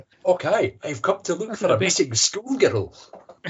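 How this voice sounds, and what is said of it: Generic put-on Scottish accent. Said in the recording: “What's a generic Scottish accent? That'll do.”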